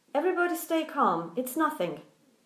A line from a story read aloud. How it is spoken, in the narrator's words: Somebody from above still kept yelling